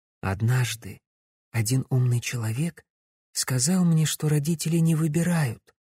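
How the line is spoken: Whisper, young woman. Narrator (Russian): шепотом произнесла девушка

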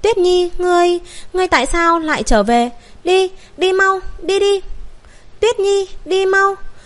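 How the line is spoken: Desperate screaming, mixed emotions. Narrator (Vietnamese): buồn vui đan xen, liền liều mạng gào thét nói

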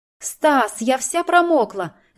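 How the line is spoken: Hysterical shriek. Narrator (Russian): завизжала чуть ли не с истерикой в голосе

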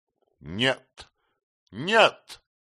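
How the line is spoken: Loud shout. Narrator (Russian): громко крикнул он

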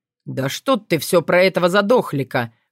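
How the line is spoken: Short laugh. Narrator (Russian): хохотнул Илья

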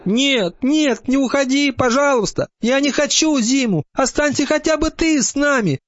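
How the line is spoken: Frightened shout, small hare. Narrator (Russian): испуганно закричал зайчик

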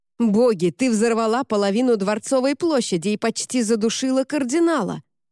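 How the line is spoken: Roared. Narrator (Russian): взревел Монтень

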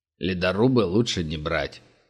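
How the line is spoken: Grumbling. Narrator (Russian): проворчал Глинич

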